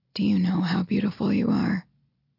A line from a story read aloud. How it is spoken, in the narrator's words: His voice sounds softer as he murmurs